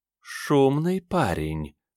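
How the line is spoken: Sweet purr in ear. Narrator (Russian): сладко промурлыкали в ухо

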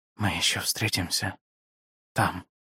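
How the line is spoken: Whisper. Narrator (Russian): прошептал он

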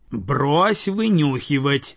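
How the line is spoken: She-bear roaring. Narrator (Russian): взревела медведица

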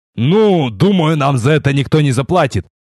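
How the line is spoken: Snort. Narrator (Russian): Фыркнул

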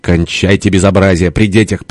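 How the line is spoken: Mother-in-law's sharp scolding. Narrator (Russian): прикрикнула теща

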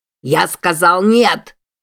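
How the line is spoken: Yell. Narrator (Russian): заорал Себастьян

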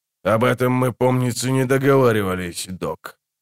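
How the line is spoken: Grumbling. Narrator (Russian): проворчал Амос

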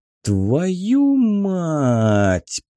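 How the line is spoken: Drawn out. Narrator (Russian): протянул Воронцов

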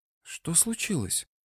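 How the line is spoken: Whispered question. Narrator (Russian): шепотом спросила меченая

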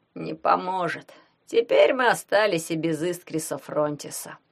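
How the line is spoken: Dejected remark. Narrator (Russian): уныло отметил Шурасик

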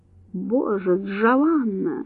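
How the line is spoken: Male groaning. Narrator (Russian): застонал он

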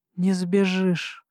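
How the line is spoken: Hoarse sleepy announcement. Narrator (Russian): хриплым с просонья голосом возвестили мне

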